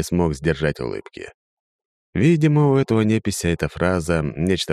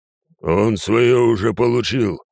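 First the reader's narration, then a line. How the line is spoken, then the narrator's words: Big man growling. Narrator (Russian): рыкнул здоровяк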